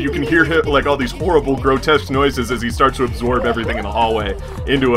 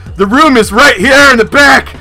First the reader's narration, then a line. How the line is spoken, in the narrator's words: He yells